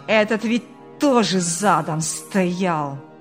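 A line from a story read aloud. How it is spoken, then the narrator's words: Angry growl. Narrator (Russian): Буквально прорычал в злобе Ильяс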